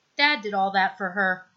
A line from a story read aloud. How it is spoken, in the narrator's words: Styles says, his tone unemotional